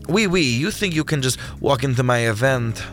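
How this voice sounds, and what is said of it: French accent. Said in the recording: “his voice now revealing a French accent which had not been previously layered into his vocal arrangement”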